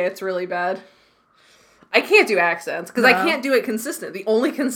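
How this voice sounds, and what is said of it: Usual voice. Nothing is said of it.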